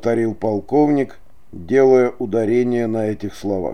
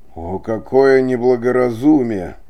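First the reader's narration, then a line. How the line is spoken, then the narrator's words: Eager exclamation. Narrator (Russian): не мог удержаться, чтобы не воскликнуть Дон Гусман, чрезвычайно заинтересованный в этом рассказе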